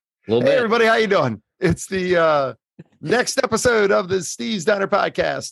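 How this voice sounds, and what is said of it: Rough, worn-out voice. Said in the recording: “my voice is still a little banged up from Sunday, I can tell.”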